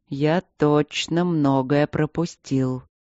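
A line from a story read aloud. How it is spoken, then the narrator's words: Spoken slowly. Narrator (Russian): медленно проговорил Энтери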